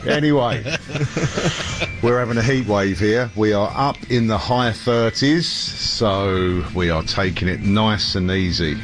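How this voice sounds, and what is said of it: London English accent. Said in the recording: “in London, England ... check out this accent, eh? This hasn't changed in the 50-odd years I've been using it.”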